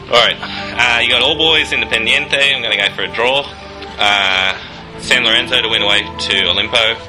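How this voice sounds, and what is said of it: Exaggerated broad Australian accent. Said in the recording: “I'll exaggerate my Australian accent for this one. ... Do it like a proper bogan.”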